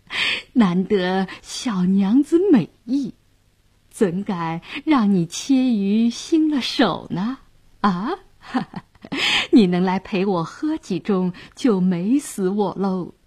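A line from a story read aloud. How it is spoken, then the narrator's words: Leering laugh. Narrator (Chinese): 色眯眯地笑道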